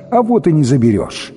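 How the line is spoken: Almost cheerful reply. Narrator (Russian): Жрица ответила почти весело

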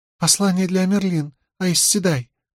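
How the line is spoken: Squeak. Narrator (Russian): пропищала девица

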